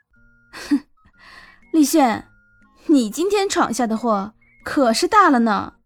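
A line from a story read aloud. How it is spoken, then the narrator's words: Forced smile. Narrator (Chinese): 他努力让自己笑着说道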